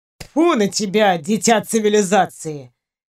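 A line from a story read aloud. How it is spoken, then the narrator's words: Good-natured snort. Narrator (Russian): Беззлобно фыркнул Ваня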